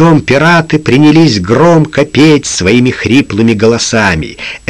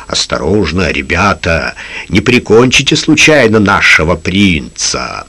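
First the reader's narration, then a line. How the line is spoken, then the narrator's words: Mumbling. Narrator (Russian): бормотал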